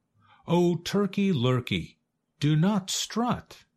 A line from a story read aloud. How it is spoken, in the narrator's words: cried Goosey Lucy